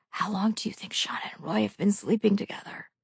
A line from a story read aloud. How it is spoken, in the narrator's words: Glenn whispered